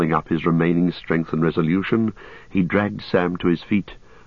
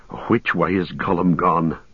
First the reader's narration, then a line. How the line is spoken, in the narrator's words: panted Sam